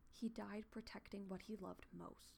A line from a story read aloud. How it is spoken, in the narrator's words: she whispered